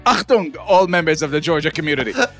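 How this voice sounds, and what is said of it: Put-on German accent. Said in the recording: “do that in the German accent.”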